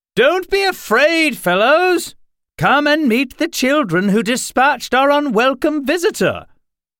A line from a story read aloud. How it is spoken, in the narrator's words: Addison called out